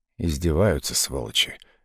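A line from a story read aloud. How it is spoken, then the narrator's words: Lazy curse. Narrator (Russian): лениво выругался он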